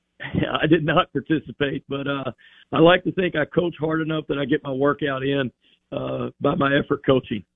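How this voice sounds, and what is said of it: Hoarse voice. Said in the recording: “Sorry for the hoarse voice. We had some mat drills this morning. ... Still recovering my voice a little bit here.”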